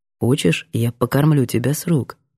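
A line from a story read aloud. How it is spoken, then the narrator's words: Quiet offer. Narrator (Russian): Предлагаю тихо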